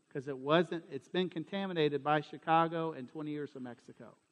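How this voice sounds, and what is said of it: Southern American accent. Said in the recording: “if y'all think my accent is bad now ... it was still super Southern”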